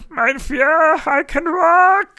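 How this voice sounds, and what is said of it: Dr. Strangelove character impression. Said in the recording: “I think I do a good Strangelove impersonation”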